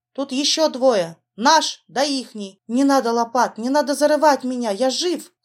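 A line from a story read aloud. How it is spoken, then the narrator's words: Weak moan from parched lips. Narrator (Russian): Хочу я закричать, но только слабый стон выходит из запекшихся губ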